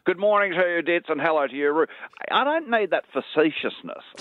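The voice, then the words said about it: Malcolm Turnbull impersonation. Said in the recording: “your Malcolm Turnbull impersonation”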